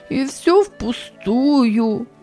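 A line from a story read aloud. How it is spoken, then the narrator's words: Tearful speaking. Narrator (Russian): сквозь слезы произнес Ричард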